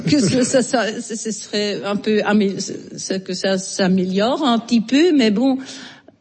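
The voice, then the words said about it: Strong Belgian French accent. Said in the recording (French): “Molière avec l'accent belge ... avec votre voix et votre accent ... c'est un fort accent”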